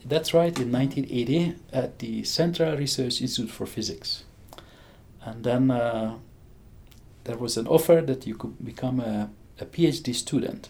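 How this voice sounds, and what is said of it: Hungarian accent. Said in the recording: “I have a strange accent. I grew up in Hungary.”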